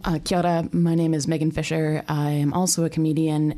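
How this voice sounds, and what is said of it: Canadian accent. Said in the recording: “my accent is from Canada”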